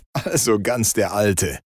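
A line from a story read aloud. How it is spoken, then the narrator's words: Laughing. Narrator (German): lachte Krampas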